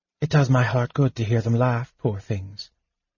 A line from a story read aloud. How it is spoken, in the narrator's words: she said softly